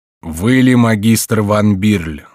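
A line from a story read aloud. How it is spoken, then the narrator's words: Plain. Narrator (Russian): спросил судья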